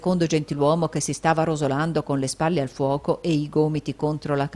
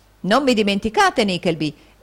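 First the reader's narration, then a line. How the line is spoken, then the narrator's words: Gentleman exclaiming. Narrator (Italian): esclamò un gentiluomo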